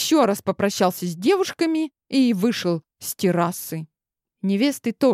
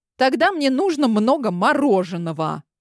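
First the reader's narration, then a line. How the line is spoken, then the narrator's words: Angry. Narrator (Russian): злобно проговорила я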